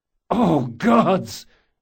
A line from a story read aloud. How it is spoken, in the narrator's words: Jean cried